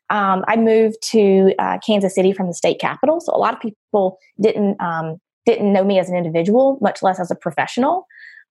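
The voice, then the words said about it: Southern US accent. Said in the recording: “a southern accent that you may detect”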